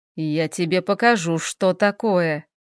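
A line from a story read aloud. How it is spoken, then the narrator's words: Grumbling. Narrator (Russian): проворчал Хел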